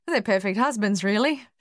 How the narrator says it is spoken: she said, laughing for the first time in weeks

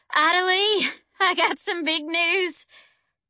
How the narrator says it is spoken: Mama hollered

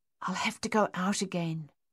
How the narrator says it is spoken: Francois said softly

